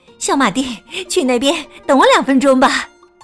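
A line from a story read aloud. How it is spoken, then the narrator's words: Breathless. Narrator (Chinese): 妈妈喘着粗气对我说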